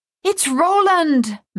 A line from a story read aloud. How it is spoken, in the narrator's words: Madame Chassis cried